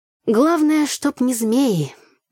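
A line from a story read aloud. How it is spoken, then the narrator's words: Sighing. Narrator (Russian): вздохнула я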